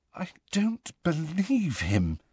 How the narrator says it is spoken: said Hermione in a very unsteady voice

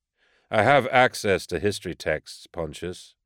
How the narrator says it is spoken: I said dryly

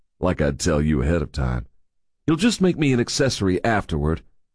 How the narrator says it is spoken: grumbled

